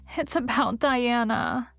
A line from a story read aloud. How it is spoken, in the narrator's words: sobbed Anne luxuriously